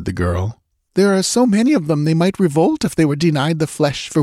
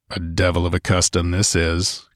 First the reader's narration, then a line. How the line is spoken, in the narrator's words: growled Conan